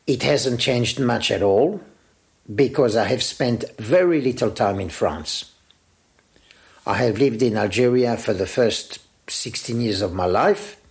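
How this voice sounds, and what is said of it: Strong pied-noir French accent. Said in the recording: “has somehow kept the accent from his homeland ... My pied noir accent is still very strong.”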